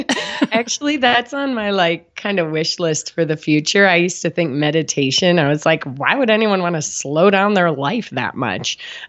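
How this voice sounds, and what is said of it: Low, husky sick-sounding voice. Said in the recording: “I've also got my sexy voice on for you because I've been sick. ... You do.”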